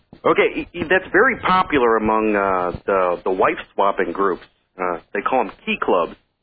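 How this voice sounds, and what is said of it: Texan accent. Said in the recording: “I'm down in Texas. ... Can't you tell by the accent?”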